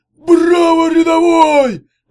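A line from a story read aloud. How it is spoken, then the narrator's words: Barked. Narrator (Russian): рявкнул он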